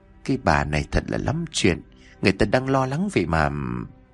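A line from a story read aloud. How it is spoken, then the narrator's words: Reproachful muttering. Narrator (Vietnamese): Miệng cô lẩm bẩm trách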